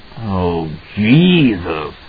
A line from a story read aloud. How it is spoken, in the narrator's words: Halloran moaned